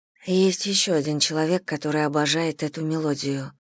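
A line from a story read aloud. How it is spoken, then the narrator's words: Muttering to herself. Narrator (Russian): пробормотала Селия, обращаясь к себе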